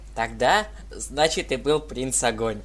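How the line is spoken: Laughing. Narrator (Russian): Рассмеялась Дитси

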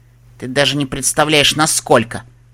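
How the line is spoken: Snapping retort. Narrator (Russian): огрызнулась Элизабет

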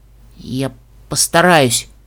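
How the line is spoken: Unicorn forcing words out. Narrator (Russian): выдавила единорожка

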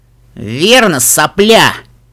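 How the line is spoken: Gloating growl. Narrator (Russian): злорадно прорычал Фрай

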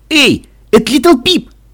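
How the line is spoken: Excited shout. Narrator (Russian): с восторгом закричал Каламити

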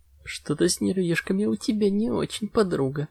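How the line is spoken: Nervous giggling mare. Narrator (Russian): Нервно хихикнув, упрекнула себя кобылка

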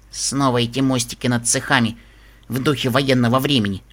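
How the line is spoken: Grumbling. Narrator (Russian): проворчала

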